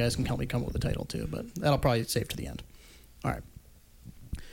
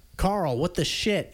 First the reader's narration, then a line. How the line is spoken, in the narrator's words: she yelled